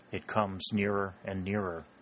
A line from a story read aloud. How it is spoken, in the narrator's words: murmured Harley